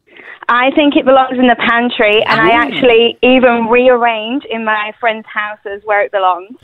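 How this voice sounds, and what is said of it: English accent. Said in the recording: “I'm noticing an accent there. Where are you from? ... England.”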